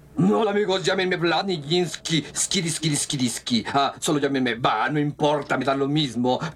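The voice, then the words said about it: Put-on Russian accent. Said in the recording (Spanish): “con acento ruso”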